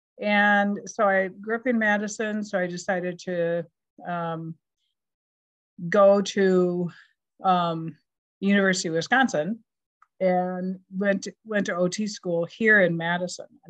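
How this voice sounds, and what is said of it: Wisconsin accent with Minnesotan touches. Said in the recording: “you can hear my Wisconsin accent ... I dip into the deep Minnesotan accent at times”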